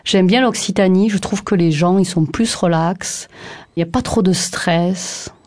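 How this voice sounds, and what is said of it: Regional southern French accent. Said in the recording (French): “Vous voyez mon accent.”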